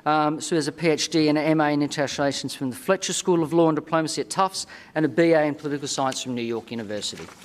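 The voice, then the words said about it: Australian accent. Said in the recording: “From my accent, I'm not from the Commonwealth of Virginia, but from the Commonwealth, specifically the Commonwealth of Australia.”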